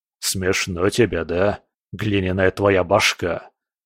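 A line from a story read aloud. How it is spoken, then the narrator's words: Rock's mutter. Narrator (Russian): пробормотал скала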